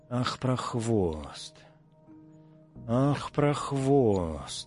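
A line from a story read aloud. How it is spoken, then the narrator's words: Hoarse wheeze through teeth. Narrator (Russian): сквозь зубы сипела Пелагея Ивановна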